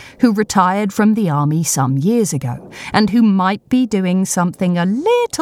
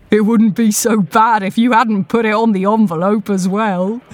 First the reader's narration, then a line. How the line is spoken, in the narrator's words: chuckles, remembering the fury